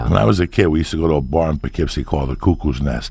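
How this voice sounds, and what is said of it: North Jersey accent. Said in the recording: “North Jersey ... hearing your accent”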